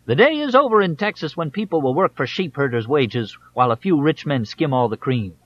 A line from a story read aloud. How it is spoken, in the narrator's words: he shouted